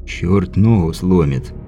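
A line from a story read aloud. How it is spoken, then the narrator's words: Quiet grumbling. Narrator (Russian): негромко проворчал Бибик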